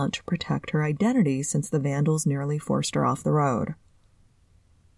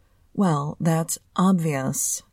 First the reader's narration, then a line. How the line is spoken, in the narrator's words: he drawled sarcastically